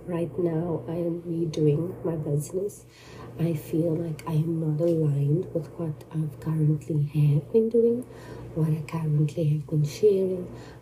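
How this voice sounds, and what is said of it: Congested voice from a cold. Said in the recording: “I've got a cold. ... the voice that I have is not my, you know, normal voice.”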